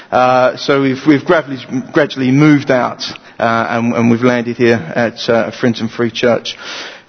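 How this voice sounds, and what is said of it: East London accent. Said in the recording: “I come from East London, as you can probably tell with the accent.”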